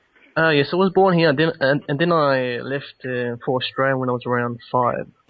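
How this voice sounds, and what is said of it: Australian accent. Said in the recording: “that's why I have a Australian accent. ... you sound like you speak the King's English a little bit, or the Queen's now.”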